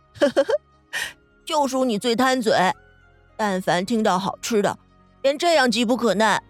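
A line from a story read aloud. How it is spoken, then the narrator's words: Laughing mock reproach. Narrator (Chinese): 袁克便笑嗔道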